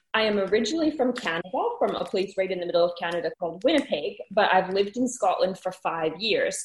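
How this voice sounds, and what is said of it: Hybrid Canadian and Scottish accent. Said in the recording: “I have a very strange hybrid accent ... I think now I have a bit of a weird accent. People here still notice that I'm not from here, and people back home all think I sound really Scottish now”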